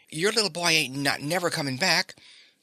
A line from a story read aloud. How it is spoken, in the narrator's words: he fairly stammered in his excitement